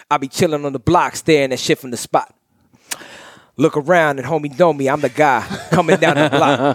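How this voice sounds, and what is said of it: Imitates another person's battle-rap delivery. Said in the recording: “Does he think he's a battle rapper now? ... that's a good ass impersonation.”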